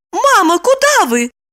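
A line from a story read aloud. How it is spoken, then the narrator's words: Joyful, disbelieving exclamation. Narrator (Russian): воскликнула Липочка, не смея поверить своему счастью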